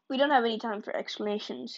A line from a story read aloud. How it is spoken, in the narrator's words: he said